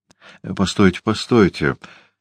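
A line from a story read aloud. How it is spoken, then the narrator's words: Stammering mutter. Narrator (Russian): пробормотал, запинаясь, Дориан Грей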